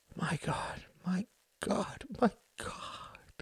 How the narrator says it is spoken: he murmured

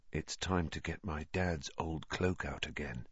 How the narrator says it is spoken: said Harry, more quietly still

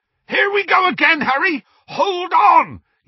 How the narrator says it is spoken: yelled Hagrid

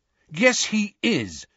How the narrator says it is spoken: said Harry, Ron and Ginny angrily

